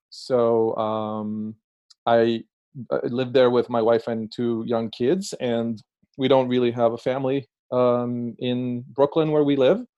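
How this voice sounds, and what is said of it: Israeli-accented English. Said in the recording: “as you can detect by my accent, I'm originally Israeli”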